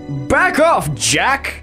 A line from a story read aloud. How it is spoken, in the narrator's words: he snapped